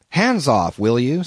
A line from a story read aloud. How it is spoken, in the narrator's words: said I